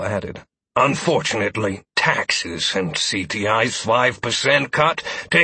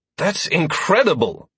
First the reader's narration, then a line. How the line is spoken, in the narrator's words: I exclaimed